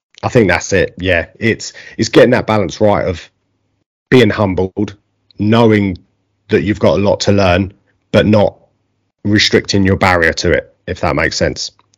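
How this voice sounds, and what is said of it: Essex English accent. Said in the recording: “my gop in Essex accent”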